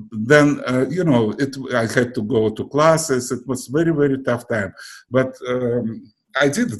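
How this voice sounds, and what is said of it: Non-native accent in English. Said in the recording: “obviously, you have your accent,”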